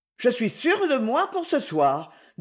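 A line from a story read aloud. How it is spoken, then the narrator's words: Cheerful. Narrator (French): dit-elle gaiement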